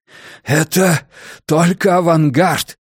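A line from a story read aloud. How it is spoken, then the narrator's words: Hoarse shout over fire's roar. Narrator (Russian): прохрипел тамплиер, силясь перекрыть хищный клёкот лесного пожара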